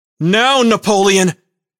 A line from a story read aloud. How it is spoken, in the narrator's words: Jim shouted